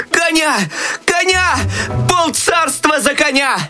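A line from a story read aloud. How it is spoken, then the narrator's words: Desperate shout. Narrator (Russian): В отчаянии закричал Щелкунчик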